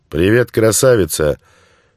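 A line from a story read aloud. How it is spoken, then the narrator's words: Loud bark. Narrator (Russian): гаркнул он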